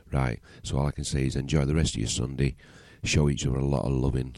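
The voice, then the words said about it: Deep voice with Yorkshire accent. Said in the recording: “my Yorkshire accent and my red deep voice ... a bit like Barry White in the morning, cross between Frank Bruno”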